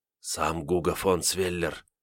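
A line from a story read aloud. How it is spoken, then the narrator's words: Whispered explanation. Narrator (Russian): шепотом пояснил Кольша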